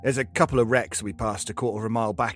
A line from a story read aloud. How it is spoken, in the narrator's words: he says